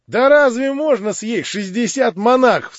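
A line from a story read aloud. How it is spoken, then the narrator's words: Crowd laughing. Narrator (Russian): смеялись кругом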